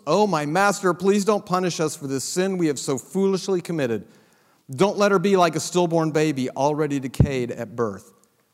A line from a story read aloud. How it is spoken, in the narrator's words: he cried out